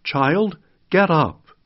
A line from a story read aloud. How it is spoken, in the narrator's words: Jesus called out